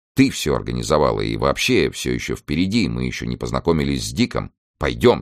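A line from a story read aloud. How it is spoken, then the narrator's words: Plain. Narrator (Russian): сказал он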